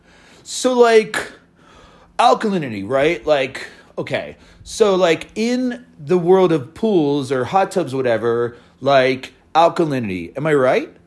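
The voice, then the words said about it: Exaggerated Southern California dude voice. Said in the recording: “That was just an impression of myself that I just did, which I guess I think I'm an idiot from Southern California”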